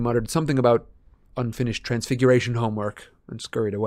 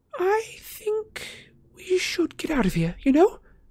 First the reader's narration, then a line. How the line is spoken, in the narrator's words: said Hermione nervously